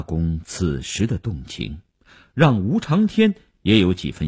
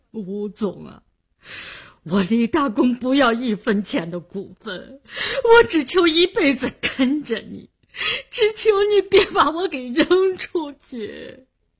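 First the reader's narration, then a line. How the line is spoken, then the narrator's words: Crying. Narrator (Chinese): 他哭着说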